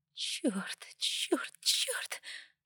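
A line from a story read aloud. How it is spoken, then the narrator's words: Muttered. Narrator (Russian): бормотала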